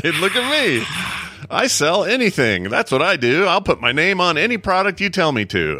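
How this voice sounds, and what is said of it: Imitates another person's voice. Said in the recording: “my impersonation of Gronkowski”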